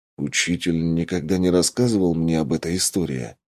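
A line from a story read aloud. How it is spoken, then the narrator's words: Mutter. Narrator (Russian): пробормотал я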